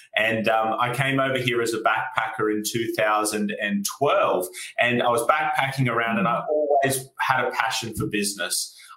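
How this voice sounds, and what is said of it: Australian accent. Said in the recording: “as you can tell from my accent, I'm from Australia”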